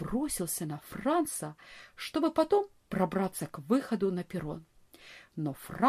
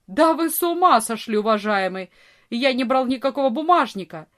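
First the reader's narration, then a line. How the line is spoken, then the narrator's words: Furious shout. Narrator (Russian): Вор яростно закричал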